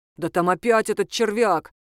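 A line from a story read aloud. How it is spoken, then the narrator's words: Disgusted hiss. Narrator (Russian): с отвращением прошипел второй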